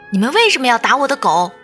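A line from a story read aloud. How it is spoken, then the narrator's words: Girl's hoarse desperate shout. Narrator (Chinese): 姑娘声嘶力竭地喊着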